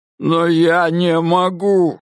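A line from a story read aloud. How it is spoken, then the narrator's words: Sobbing exclamation. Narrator (Russian): воскликнул Диккенс рыдающим голосом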